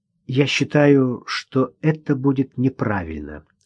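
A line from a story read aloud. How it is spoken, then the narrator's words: Plain. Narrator (Russian): ответила Ирина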